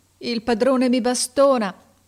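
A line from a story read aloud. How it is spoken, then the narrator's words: Sobbing. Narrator (Italian): disse singhiozzando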